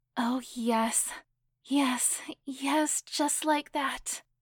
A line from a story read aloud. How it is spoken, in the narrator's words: gasped loudly, as pleasure began to rise further and further